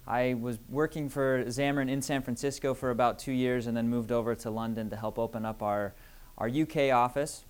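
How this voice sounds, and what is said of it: Non-English accent. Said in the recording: “if you'll tell by the accent, I'm not English”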